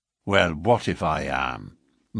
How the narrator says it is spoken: McMurdo answered in a surly voice

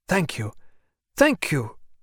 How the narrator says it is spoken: cried Rudy

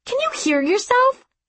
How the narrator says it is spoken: I snapped

